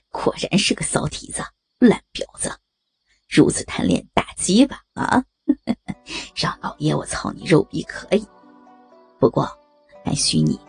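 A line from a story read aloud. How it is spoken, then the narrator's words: Loud laughter. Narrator (Chinese): 杨三听完大笑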